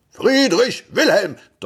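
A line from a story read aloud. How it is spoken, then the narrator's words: Thundering male voice. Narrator (German): donnerte eine Männerstimme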